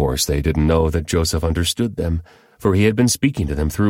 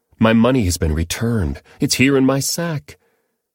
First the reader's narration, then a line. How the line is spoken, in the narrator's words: he exclaimed to his brothers